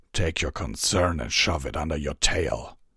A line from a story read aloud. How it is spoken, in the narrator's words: Sharpfangs snarled